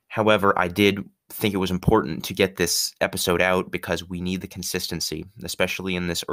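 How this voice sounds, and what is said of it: Sick, under-the-weather voice. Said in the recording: “I am under the weather a little bit ... tell by my voice ... I am a little bit sick”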